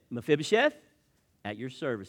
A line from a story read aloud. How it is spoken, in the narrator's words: replied